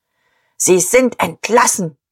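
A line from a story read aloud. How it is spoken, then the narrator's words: Barked command. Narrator (German): bellte Diederich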